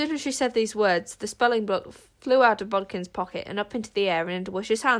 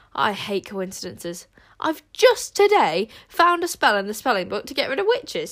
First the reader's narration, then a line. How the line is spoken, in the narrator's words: said Wish triumphantly